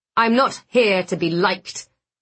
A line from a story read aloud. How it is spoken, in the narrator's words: Blackwood snapped